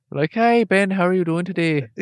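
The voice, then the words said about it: Mixed British-American put-on accent. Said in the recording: “that like weird sort of like Madonna accent where like it's like sort of British, sort of English, like American”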